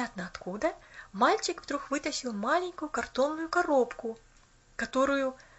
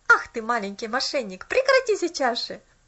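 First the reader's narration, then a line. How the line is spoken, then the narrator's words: Laughing. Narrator (Russian): Рассмеялся он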